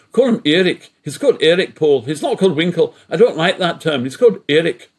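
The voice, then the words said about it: Northern Irish accent with Scots tinge. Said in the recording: “That's approximately her Northern Ireland accent with a bit of Scots in there, probably.”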